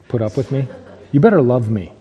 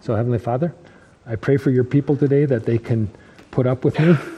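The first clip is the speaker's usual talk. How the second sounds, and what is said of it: Sarcastic tone. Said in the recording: “know that was sarcasm,... So that's sarcasm. I guess I shouldn't pray in sarcasm”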